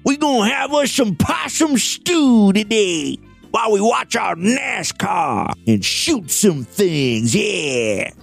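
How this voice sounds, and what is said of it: Put-on Southern hillbilly accent. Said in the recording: “very offensive southern accent”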